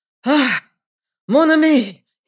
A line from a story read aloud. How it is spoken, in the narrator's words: cried